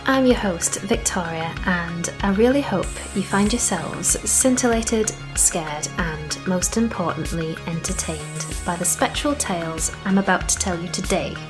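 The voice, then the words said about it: Put-on London accent, not very good. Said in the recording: “did you like my some sort of London accent ... I must admit I didn't like it either”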